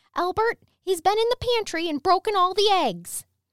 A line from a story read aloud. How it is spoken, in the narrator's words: a voice that must have been his mother shout